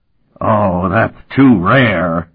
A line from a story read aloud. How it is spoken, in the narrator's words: he roared